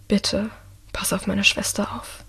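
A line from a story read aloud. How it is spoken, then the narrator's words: Quiet. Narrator (German): sagt Michael leise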